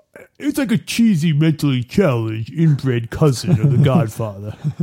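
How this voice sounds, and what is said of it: Imitates another person's voice. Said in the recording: “I'm going to give you some credit for that impression ... He about 80% of the way. You can't do it without... You have to turn your face crooked sideways.”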